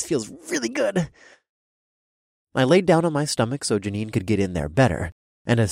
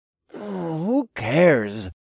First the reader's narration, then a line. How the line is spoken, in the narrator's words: I groaned